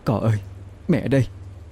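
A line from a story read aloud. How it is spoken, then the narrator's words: Trembling voice. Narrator (Vietnamese): cái bóng, giọng run run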